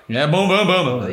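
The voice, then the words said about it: Vocal imitation of a double bass. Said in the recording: “Impression of a double bass there.”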